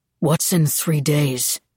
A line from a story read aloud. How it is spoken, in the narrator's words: Reed said, his voice strained